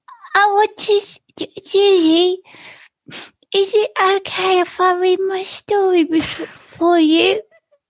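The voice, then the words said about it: Little girl voice. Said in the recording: “you start talking in a little girl voice.”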